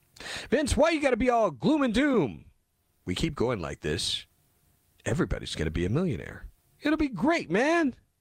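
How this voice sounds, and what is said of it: Imitates another person's voice. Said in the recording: “Did I do my Joe Biden voice well there?”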